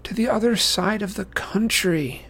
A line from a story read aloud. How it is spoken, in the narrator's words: she said miserably